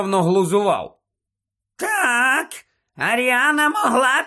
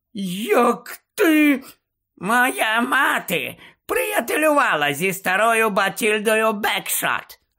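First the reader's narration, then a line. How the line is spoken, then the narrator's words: Joyful aunt announcing. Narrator (Ukrainian): радісно повідомила тітонька Мюріель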